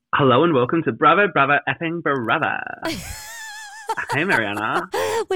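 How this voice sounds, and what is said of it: Put-on Beverly Hills Valley girl accent. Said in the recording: “Was that your best Beverly Hills accent? ... Uh-huh. I'm a Valley girl.”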